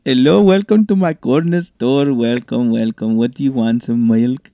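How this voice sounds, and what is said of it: Put-on Indian accent. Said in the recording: “talking in an accent... In an Indian accent?... Okay, doing it, Indian.”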